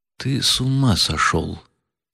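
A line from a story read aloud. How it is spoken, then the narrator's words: Sudden whisper. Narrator (Russian): прошептал вдруг Птицын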